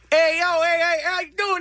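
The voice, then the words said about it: Put-on Chicago accent. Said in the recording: “You're doing a Chicago accent?”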